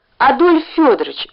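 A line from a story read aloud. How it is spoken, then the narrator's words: Pleading. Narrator (Russian): взмолился он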